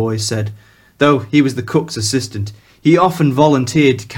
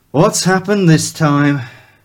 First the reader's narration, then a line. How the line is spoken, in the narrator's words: Black sighed, more to himself than to anyone else